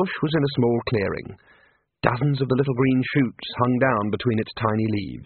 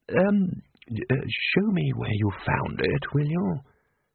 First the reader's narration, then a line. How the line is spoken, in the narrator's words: Ridcully said quietly